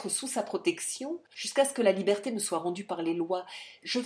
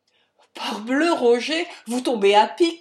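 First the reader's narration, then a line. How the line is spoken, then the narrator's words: Relieved, happy exclamation. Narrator (French): s'écria Bonnaire, inconscient de la situation, heureux de ce secours qui lui arrivait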